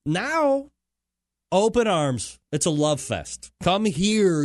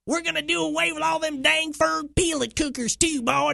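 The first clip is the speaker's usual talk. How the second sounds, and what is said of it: Put-on Texas accent. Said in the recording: “sorry, you didn't understand my Texas accent.”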